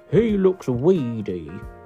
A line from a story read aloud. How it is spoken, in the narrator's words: Mother T was horrified by baby number three, and she grumbled